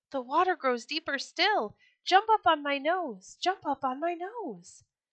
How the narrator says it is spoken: the fox cried out suddenly

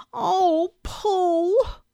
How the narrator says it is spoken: cried Christopher Robin

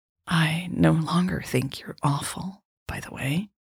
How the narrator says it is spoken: Jade whispered

